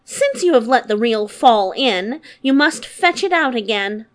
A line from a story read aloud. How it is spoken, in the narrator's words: Her stepmother scolded her so sharply and was so merciless that she said